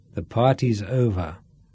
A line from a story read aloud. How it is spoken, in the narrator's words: Sean said grimly